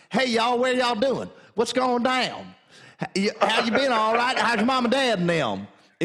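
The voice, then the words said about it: Put-on Southern drawl. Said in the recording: “It turns into a real southern drawl.”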